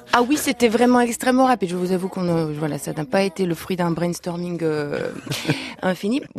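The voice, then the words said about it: Slight Lithuanian accent in French. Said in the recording (French): “Vous êtes d'origine lituanienne, d'où ce petit accent.”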